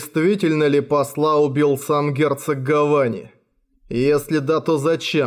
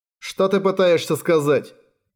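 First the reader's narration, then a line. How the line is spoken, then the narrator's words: Irritated official. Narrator (Russian): раздраженно бросил другой чиновник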